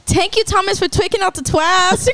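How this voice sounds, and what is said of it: Imitates another person's accent. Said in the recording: “the way he talks with his accent”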